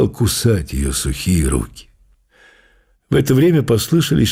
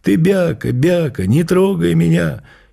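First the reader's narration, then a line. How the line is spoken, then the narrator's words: Shrill squeal. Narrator (Russian): Акси-Вакси завизжал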